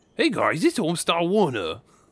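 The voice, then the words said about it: Cartoon character voice impression. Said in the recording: “I'm starting to sound like Scooby instead of Homestar ... I feel pretty good about that impression.”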